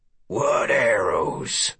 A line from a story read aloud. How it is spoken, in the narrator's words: he rasped